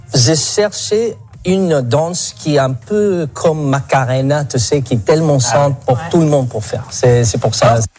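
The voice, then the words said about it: Slight foreign accent. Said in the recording (French): “il y a un petit accent ... Un petit accent”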